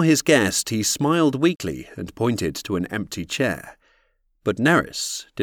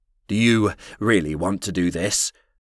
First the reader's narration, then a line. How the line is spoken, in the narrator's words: asked Neris in a trembling voice